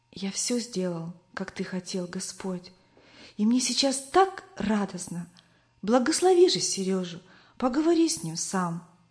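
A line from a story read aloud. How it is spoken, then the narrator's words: Boy whispering. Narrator (Russian): По дороге домой мальчик шептал Иисусу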